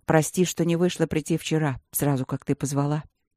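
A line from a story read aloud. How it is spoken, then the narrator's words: Quiet, serious. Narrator (Russian): сказал он тихо и серьезно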